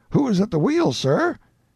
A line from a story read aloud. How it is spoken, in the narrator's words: the night watchman exclaimed